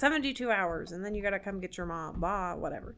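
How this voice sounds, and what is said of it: Over-caffeinated old-timey radio announcer voice. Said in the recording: “I don't know what that accent was, because it's definitely not his. ... Vampire accent. ... It's kind of old-timey radio announcer, and also, like, me talking like I've had too much coffee.”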